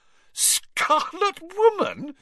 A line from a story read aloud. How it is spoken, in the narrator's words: she repeated, shaking with suppressed giggles